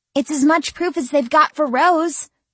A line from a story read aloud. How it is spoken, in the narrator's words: exclaimed Lyssa